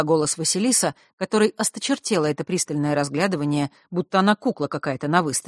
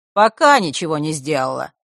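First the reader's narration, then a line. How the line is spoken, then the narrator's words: Cold female objection. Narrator (Russian): холодно возразила женщина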